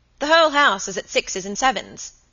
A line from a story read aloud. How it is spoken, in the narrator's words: he said crossly